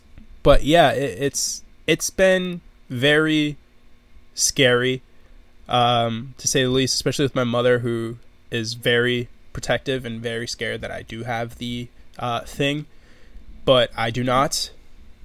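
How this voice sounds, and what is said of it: Slightly nasal, congested voice. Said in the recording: “You can kind of hear my voice is a bit nasally”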